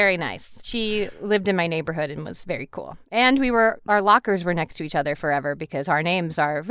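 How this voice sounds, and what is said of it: Usual voice. Nothing is said of it.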